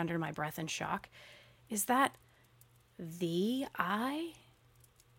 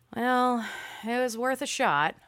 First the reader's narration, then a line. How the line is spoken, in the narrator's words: I sighed